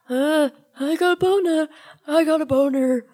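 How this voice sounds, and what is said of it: Imitates another person's voice. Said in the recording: “your impression of Scott ... My impression of Scott”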